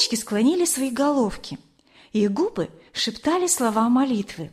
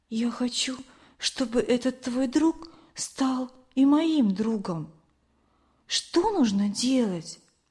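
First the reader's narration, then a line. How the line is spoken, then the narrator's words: Quiet whisper. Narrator (Russian): она тихо прошептала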